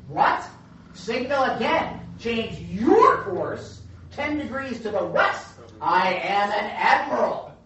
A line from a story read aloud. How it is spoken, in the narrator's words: the commander barked